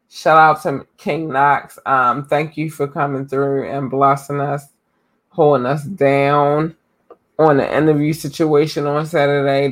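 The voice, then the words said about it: Hoarse, worn-out voice. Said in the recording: “my voice is gone to crap”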